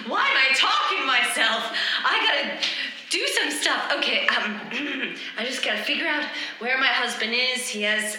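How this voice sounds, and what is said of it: Yelling while talking to herself. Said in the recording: “stop yelling to yourself”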